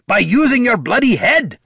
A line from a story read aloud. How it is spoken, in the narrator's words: snapped Gorm